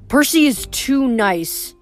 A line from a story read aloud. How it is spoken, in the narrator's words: Annabeth grumbled